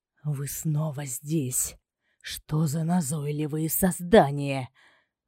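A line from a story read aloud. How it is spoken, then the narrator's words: Growling. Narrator (Russian): Рыкнул на них темнейшество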